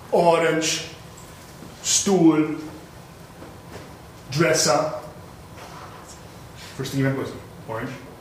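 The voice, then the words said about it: Put-on German accent. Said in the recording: “why are you speaking in that ridiculous accent? Why are you speaking just German, sir?”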